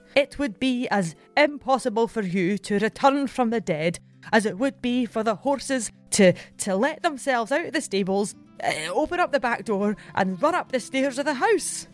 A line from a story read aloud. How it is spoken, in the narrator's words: The servant is so passionate in his belief that he exclaims